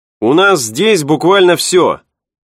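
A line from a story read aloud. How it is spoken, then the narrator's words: Shouting. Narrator (Russian): прокричал он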